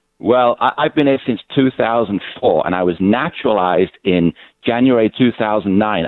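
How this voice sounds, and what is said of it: British accent. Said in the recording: “this doesn't sound like a Brooklyn accent ... you're from the UK”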